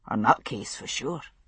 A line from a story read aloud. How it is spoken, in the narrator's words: Roger murmured